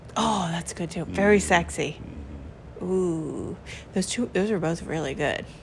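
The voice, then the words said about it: Put-on sexy voice. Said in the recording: “Why'd you put on your sexy voice for all that? ... Is that my sexy voice?”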